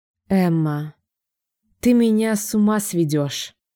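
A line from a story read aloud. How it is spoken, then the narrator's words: Tired speech. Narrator (Russian): Наконец-то устало говорит он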